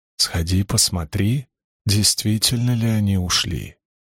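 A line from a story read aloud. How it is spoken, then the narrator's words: Whisper close to ear. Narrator (Russian): прижался губами к ее уху и прошептал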